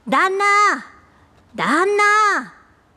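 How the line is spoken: Shouting. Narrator (Japanese): と叫ぶものがあります

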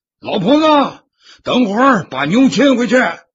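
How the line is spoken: Loud shout. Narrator (Chinese): 扯开嗓门子喊道

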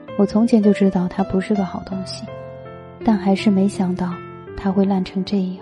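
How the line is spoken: Distraught murmur. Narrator (Chinese): 闺蜜崩溃至极，直着眼睛，喃喃地说

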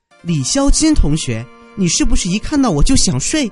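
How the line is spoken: Angry scolding. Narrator (Chinese): 佳琪忍不住怒了 骂道

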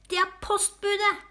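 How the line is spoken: Screamed. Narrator (Norwegian): skrek Findus

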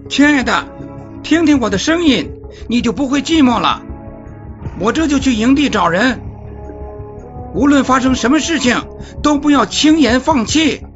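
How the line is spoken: Calling out. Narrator (Chinese): 他向克里斯汀叫道

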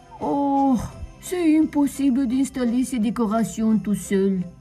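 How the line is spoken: Sighing. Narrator (French): soupira-t-il

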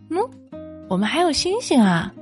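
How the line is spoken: Small rabbit, smiling. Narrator (Chinese): 小兔子指了指天上，笑着说

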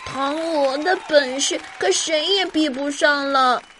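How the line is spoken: Admiring crowd in unison. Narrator (Chinese): 观众们同时赞叹

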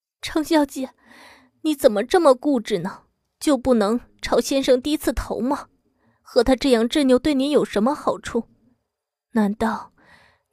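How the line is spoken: Muffled choked sob. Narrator (Chinese): 骤然捂着嘴哽咽出来

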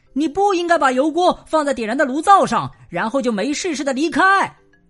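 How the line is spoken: Shrieking. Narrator (Chinese): 大瞎猫再次尖叫起来

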